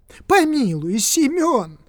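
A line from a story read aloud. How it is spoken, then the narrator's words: Shouting. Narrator (Russian): закричал он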